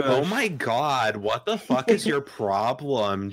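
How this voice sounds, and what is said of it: Whiny Valley Girl-ish imitation. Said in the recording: “the exact voice I use to make fun of you ... he does an impression of me, is like super accurately whiny ... kind of Valley Girl-ish, maybe?”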